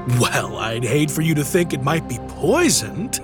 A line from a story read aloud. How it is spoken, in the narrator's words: laughed Christian